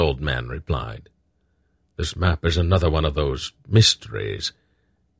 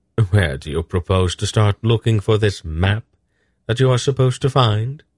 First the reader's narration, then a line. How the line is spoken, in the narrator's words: he asked